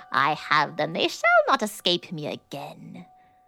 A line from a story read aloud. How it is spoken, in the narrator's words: she had cackled with malice to herself and said mockingly